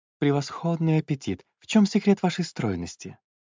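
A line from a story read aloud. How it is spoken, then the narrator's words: Waiter whispering. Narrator (Russian): шепотом выдал гарсон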